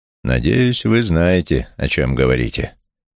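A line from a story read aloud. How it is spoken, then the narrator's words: Gloomy remark. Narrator (Russian): мрачно заметил Джером Арков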